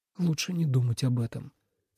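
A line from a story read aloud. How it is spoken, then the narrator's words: Quiet. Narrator (Russian): тихо сказал он наконец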